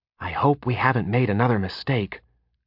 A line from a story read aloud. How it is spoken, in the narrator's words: Kyber muttered to Penn as she glanced about uneasily